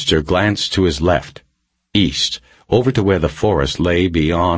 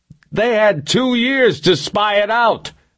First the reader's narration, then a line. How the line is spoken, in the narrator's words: Reacher shouted